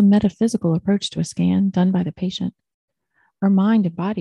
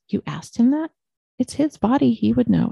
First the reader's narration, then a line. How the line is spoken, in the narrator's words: I said